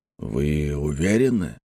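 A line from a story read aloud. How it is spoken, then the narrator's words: Gentle inquiry. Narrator (Russian): мягко поинтересовался господин Кан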